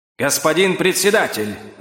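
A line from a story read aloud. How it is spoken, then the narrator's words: Loud yell. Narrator (Russian): завопил он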